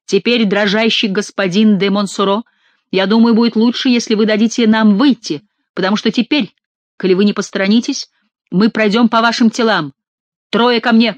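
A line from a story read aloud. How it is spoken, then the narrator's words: Shouting. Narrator (Russian): крикнул Монсоро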